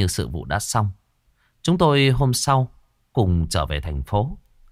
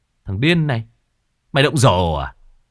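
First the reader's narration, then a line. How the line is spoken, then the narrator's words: Woman cursing. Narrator (Vietnamese): Một bà chị nào đó chửi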